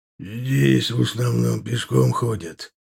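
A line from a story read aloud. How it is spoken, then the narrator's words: Displeased grumble. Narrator (Russian): не очень довольно буркнул Аркар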